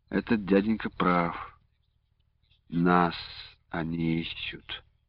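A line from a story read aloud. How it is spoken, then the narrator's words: Quiet weary remark. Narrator (Russian): Ощущая, как затяжелели ноги, он тихо заметил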